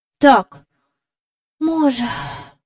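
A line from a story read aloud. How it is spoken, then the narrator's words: Soft sigh. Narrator (Ukrainian): сказав Майкл, тихенько зітхнувши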